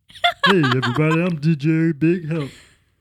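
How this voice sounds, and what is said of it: Deep-voiced DJ Big Help impression. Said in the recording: “going to do a voice, ... it was going to come out as the Big Help. ... that's deeper than his actual voices”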